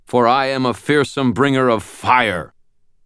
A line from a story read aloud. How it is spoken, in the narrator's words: bellowed